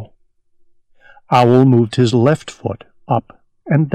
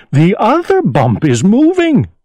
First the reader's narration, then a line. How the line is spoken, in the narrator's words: cried Owl